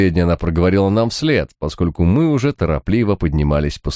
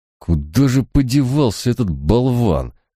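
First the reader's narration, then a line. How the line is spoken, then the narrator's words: Irritated growl. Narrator (Russian): раздраженно прорычал Барак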